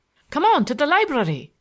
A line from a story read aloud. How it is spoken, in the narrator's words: shouted Larry